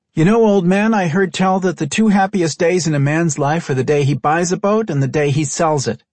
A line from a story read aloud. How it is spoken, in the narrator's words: Michaela called out in greeting